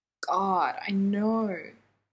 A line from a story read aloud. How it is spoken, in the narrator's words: Jensen groans